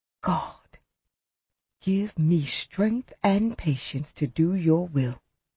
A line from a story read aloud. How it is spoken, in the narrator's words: whispered